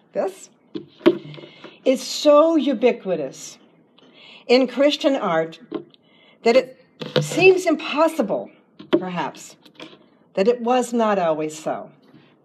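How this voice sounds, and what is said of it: Voice with a slight cold. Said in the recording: “I have a bit of a cold”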